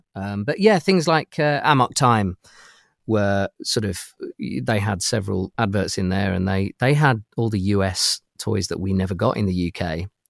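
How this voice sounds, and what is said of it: British accent. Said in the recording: “my accent is is from from the UK... limey”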